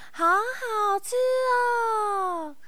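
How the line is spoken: Two voices, loud. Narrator (Chinese): 他们就两个人大声的说

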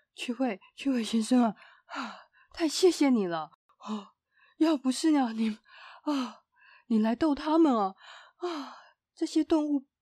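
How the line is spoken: Breathless laughing speech. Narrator (Chinese): 管理员笑得喘不过气来，他上气不接下气的说

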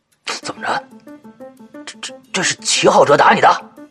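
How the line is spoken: Tearful voice. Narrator (Chinese): 赵大宝带着哭腔啊

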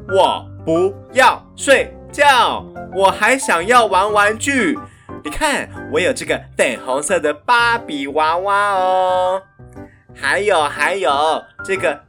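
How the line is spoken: Loud insistent child. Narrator (Chinese): 贝蒂还是大声地说

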